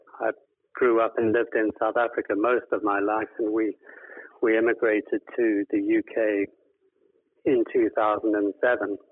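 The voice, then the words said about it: South African accent. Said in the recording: “this isn't a Devon accent. It's a little bit further south of the capital than that.”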